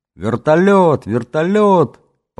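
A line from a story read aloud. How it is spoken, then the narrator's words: Boyish loud joyful yell. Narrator (Russian): По-мальчишески громко и радостно заорал Ленька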